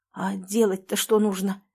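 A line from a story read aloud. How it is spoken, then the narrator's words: Hoarse question. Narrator (Russian): хрипло спросил Леня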